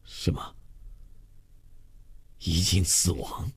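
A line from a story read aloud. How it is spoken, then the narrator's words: Hoarse, stunned, stiff-tongued question. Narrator (Chinese): 周月的全身像被电击了一下，从骨头缝里发出了一种嘶嘶的声响，他的牙齿和舌头都有些不听指挥，口齿发僵，哑声呆问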